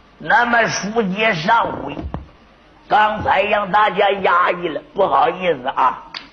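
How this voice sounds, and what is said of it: Imitation of storyteller Shan Tianfang. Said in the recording (Chinese): “那我们学学单田芳好不好？”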